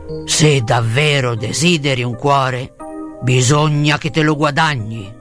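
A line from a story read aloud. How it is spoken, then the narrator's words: Gruff growling voice. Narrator (Italian): Oz emise un ringhio sordo, ma disse burbero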